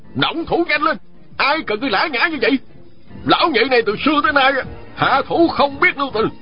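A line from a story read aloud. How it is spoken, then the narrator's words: Shouting. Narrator (Vietnamese): Ôn Phương Nghĩa quát lên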